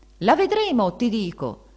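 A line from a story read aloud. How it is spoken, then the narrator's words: Shouting. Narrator (Italian): gridava donna Ferdinanda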